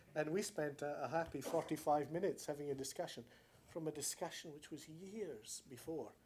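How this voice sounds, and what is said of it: Scottish accent. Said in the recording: “It's a Scottish accent”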